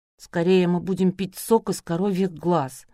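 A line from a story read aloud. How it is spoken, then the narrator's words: Gloomy grimace. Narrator (Russian): мрачно скривилась Надя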